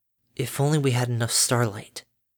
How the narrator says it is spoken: Her lips murmured

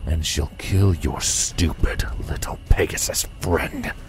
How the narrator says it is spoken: hissed, his voice quiet, even at close range

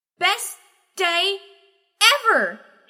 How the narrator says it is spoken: Snowbolt shouted

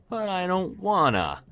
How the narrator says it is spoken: she whined

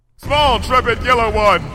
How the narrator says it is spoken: shouted Luna

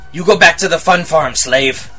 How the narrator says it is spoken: He shouted over the din around us

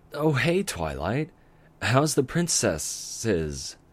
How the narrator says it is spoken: He added the plural with a childish chuckle

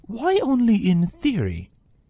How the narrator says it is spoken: Rainbow sighed

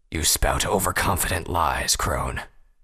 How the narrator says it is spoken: Vanguard growled

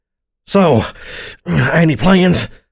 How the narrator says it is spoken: I grunted

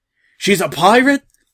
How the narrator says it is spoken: a soldier yelled

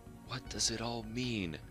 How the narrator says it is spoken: She whispered to herself, frowning angrily

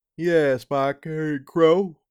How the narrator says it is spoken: Molly said with a yawn

